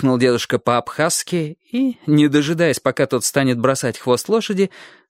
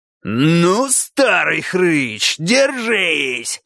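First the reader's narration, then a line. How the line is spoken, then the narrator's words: Roaring. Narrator (Russian): взревел кабан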